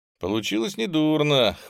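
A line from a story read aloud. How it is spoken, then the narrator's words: Snorting. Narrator (Russian): хмыкнул Ховерн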